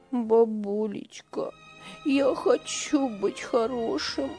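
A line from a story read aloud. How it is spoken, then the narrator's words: Boy sobbing. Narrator (Russian): всхлипывал мальчик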